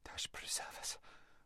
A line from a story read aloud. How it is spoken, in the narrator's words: whispered Lazareline